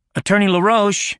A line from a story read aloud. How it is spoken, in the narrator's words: shouted